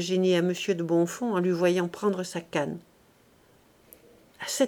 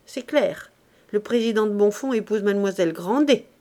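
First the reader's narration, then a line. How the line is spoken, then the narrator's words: Exclaimed. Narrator (French): s'écria madame d'Orsonval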